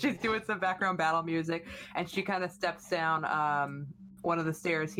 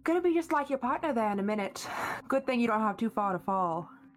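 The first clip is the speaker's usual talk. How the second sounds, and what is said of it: Character line in a put-on accent. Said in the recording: “What was that accent?”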